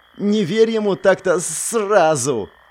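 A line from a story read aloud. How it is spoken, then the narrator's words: Hissing in pain. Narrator (Russian): Розмари зашипела от боли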